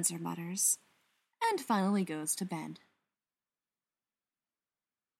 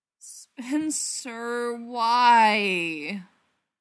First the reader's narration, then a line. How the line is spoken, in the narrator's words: Brendan moans